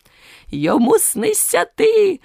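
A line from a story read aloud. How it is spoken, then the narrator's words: Joyful exclamation. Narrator (Ukrainian): вигукнув і радо заплескав у долоні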